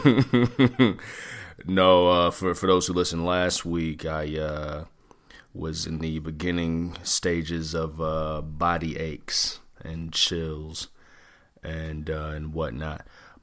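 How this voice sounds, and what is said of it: Congested, deeper voice. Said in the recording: “I just got a little bit of congestion, man, clearing my throat a little bit. ... my voice sounds a little different. ... it just sounds like your voice got deep as hell. ... a little congested”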